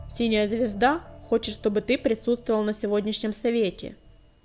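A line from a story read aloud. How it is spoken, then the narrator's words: Growling herald. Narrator (Russian): прорычал глашатай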